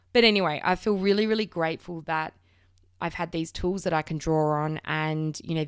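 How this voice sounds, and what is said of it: Slightly croaky voice. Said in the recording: “I've got a little bit of a cold. That's why if my voice sounds a bit croaky today”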